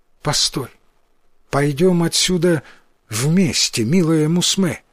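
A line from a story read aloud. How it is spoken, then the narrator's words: Tender. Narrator (Russian): произнес он, ласково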